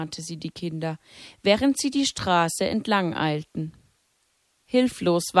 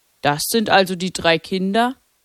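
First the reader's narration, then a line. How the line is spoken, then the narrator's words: Clergyman says sternly. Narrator (German): meinte der Geistliche streng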